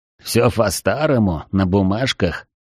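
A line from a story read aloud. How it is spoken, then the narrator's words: Snorting. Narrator (Russian): хмыкнул Ашот Багдасарович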